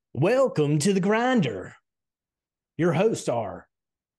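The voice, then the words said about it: Exaggerated, unpolished radio announcer voice. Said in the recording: “full-on radio voice ... Needs a little work. We need to get a little smoother with it.”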